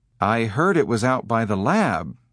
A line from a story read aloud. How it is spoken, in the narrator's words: David said more calmly